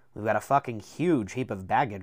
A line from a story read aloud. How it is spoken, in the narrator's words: Martin Silanus said loudly